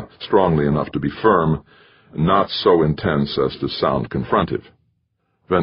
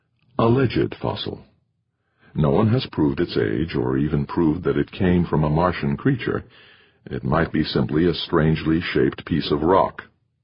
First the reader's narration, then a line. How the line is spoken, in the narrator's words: the new morality consultant said softly